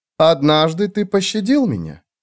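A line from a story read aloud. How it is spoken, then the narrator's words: Calm woman. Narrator (Russian): спокойно сказала женщина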